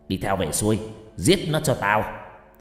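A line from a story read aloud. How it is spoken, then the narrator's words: Old man shouting. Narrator (Vietnamese): Lão ... quát lên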